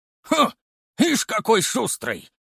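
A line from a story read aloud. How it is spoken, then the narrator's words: Old man's amused snort. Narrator (Russian): хмыкнул старик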